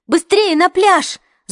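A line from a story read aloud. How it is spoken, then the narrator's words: Shout. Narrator (Russian): закричала Хлоя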